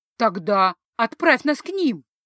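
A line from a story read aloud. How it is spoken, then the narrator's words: Cheerful suggestion. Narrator (Russian): Радостно, словно предстояла веселая прогулка по залитому теплым солнцем цветущему лугу, предложила Лисса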